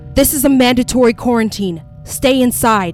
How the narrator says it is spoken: the male news anchor yelled

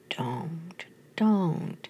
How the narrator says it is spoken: murmured

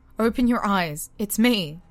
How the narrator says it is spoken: cried

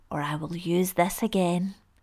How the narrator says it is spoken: ordered in his raspy voice

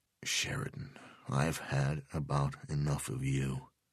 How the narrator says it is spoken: Delvecchio said quietly

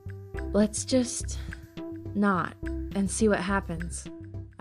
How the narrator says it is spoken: had suggested shakily

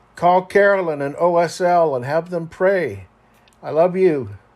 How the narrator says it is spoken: I yelled to my crying wife, Rusty

